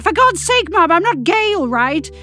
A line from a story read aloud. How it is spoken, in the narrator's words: she turned on me and shouted